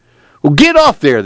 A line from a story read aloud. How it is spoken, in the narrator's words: the owner cried